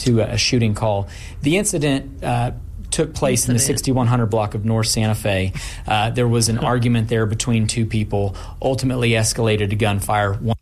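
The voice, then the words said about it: Feminine-sounding Oklahoma accent. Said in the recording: “feminine sounding. ... Accent. ... It's impossible to be a lady slayer with that accent. ... Someone from Oklahoma.”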